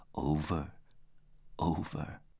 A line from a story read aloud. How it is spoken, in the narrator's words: brokenly murmured